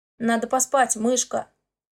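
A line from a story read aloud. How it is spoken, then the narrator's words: Muffled mumble. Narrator (Russian): Бормочет он в макушку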